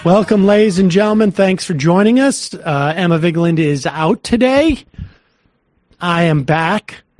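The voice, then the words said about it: Slightly stuffy, congested voice. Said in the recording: “I think, as you can tell, I have a little bit of a cold.”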